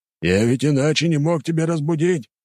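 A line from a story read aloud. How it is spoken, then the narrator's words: Shouting after someone. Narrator (Russian): крикнул вслед ему Грегор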